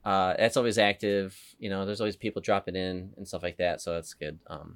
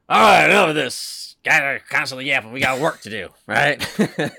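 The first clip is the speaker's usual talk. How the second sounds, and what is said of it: Imitates another person's voice. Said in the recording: “That was my Joe impression. ... You got to get more gravelly.”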